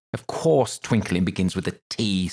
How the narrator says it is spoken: said the King sharply

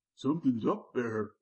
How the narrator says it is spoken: Charlie whined

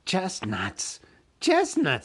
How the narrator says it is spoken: hissed

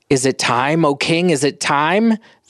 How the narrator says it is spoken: they cried

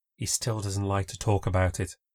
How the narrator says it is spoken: she said in a hushed tone

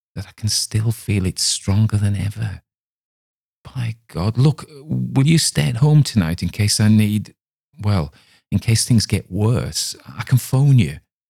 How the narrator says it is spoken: he whispered

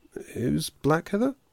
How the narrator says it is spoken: he sighed

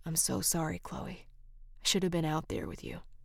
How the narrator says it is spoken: softly said

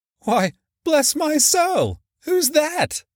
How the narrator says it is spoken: cried Fred

